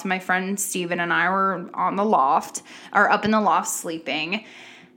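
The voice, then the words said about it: Raspy voice. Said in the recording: “my voice is so raspy”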